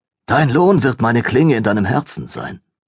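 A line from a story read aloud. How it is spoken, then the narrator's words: Hissing. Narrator (German): zischte sie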